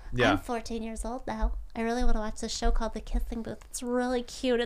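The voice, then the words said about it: Imitates a teenage girl's voice. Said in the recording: “That was a really good impression. ... I'm a fantastic teenage girl.”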